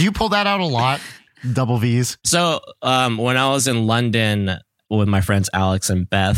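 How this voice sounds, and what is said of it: Usual voice. Nothing is said of it.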